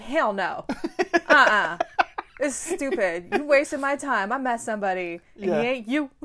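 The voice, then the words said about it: Imitates another person's voice. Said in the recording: “Your Nicole Kidman impersonation is fucking ... it's spot on, by the way. ... Uncanny. ... It's spot on. She hides the accent”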